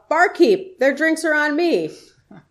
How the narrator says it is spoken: he called out

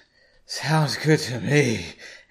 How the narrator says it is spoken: Aaron said in an exhausted voice

